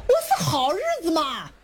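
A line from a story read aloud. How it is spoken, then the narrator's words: Shout from crowd. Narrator (Chinese): 底下有人喊了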